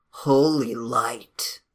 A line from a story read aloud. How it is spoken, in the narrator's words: murmured